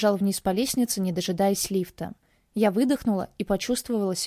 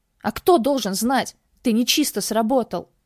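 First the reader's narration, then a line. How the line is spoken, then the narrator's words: Displeased middle-aged man growl. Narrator (Russian): Рыкнул мужчина лет 40 и недовольно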